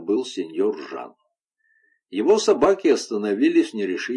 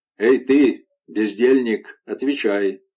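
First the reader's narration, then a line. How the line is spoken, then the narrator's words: Rough shout. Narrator (Russian): грубо окрикнули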